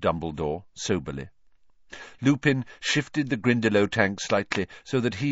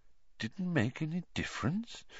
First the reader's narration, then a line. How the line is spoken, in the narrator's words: said Dumbledore quietly